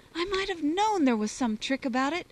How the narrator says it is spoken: cried the lad

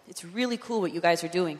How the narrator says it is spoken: he said

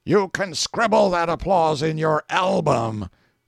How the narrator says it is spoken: Wolf growls to Letcher

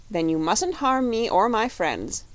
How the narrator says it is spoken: said the shaggy man firmly

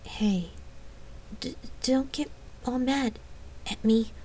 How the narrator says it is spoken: stammering her voice as she tried to shove aside a sudden wash of fear

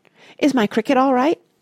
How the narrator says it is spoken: asked Mario anxiously

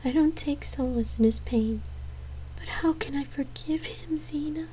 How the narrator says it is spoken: she whimpered

